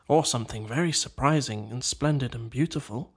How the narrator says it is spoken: murmured the Rat

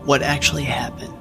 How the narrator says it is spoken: Cassie eventually asked

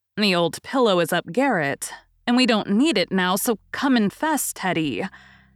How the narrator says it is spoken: Joe laughed at that as she had not done for many a long day, said in a cordial tone

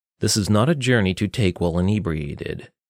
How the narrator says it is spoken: Salatrevis said curtly

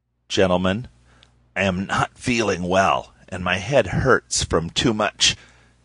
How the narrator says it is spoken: rasped

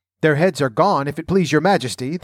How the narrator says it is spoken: the soldier shouted in reply

